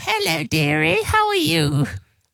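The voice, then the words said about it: Posh old lady voice. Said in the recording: “That is a spookily good posh old lady voice ... it does sound kind of female ... You are a posh old lady.”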